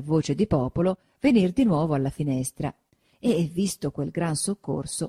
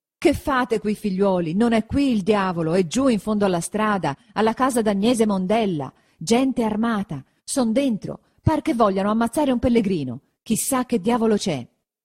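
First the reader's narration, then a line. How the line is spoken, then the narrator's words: Breathless shout. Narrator (Italian): Quando ebbe ripreso fiato, gridò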